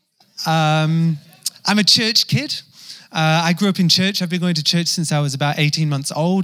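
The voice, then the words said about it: English accent, hybrid with Kiwi. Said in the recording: “You sound weird ... you just sound English ... some weird hybrid in the middle somewhere ... the more the English accent comes out. So you probably hear it super English this morning”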